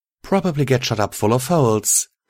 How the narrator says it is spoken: she said, giggling

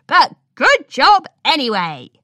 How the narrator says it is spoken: shouted Pinky with the same enthusiasm

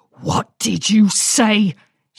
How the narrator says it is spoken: she bellowed

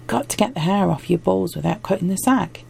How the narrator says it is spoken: she said cheerfully

